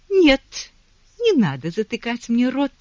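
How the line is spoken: Exclamation. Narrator (Russian): воскликнула Гая

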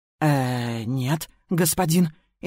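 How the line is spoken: Frightened rapid chatter. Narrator (Russian): испуганно ответила затраторила так быстро

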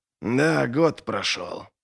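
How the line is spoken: Grumbling. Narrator (Russian): проворчал Доу

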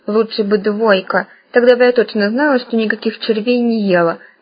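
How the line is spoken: Displeased grumbling. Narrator (Russian): поморщившись, проворчала Таня

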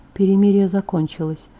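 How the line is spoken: Barely audible. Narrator (Russian): добавил так тихо, что я не была уверена, сказал ли он это вообще

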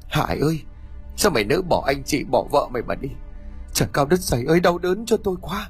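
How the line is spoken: Grief-stricken stammering. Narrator (Vietnamese): Anh quỳ sụp xuống, đôi mắt run rẩy nhìn xác cháu xác em, lắp bắp không nói thành tiếng

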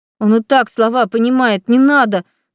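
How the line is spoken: Started, then cut off. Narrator (Russian): начала было я

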